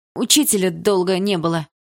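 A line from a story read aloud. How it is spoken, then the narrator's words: Shouted out. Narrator (Russian): выкрикнул кто-то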